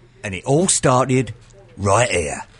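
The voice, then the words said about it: Good put-on British accent. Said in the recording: “That was a very good British accent”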